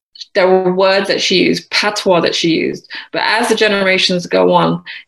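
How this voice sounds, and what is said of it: British accent. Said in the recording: “naturally, I have a British accent because I was born here.”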